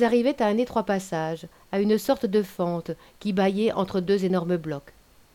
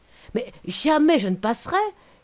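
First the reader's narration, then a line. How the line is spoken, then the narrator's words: Young woman's exclamation. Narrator (French): s'écria la jeune femme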